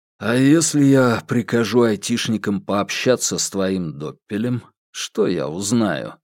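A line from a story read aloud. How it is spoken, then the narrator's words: Lazy question. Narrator (Russian): лениво спросил Иван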